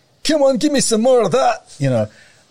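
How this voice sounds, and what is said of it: Put-on Scottish accent. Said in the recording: “I should have done a Chinese accent ... I don't know why I went for Scottish one there. Sorry, Scottish one.”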